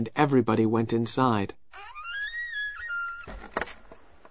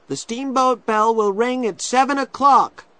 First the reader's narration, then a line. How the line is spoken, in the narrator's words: shouted one of the older children